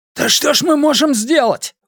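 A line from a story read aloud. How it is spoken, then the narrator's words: Desperate exclamation. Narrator (Russian): в отчаянии воскликнул кто-то из мужчин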